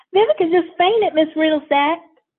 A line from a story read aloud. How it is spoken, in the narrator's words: Karen screams